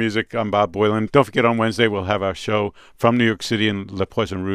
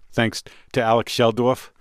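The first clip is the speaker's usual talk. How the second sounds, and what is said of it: Put-on New York accent. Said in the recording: “affecting your New York accent ... How do you turn that accent off?”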